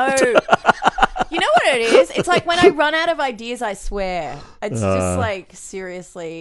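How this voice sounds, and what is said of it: Usual voice. Nothing is said of it.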